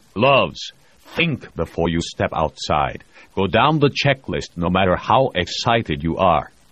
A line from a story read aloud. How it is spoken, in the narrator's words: Voznesensky said sternly